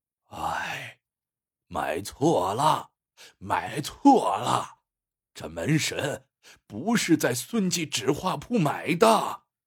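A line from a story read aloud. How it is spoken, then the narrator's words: Worried sigh. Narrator (Chinese): 徐老道 皱着眉叹道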